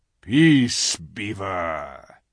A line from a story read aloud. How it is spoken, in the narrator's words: said Aslan with a very low growl